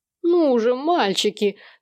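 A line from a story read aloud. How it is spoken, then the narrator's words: Pitiful insistent demand. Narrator (Russian): требовал Сэм еще более жалким настойчивым голосом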